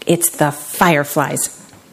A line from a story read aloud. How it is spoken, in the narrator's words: said Gecko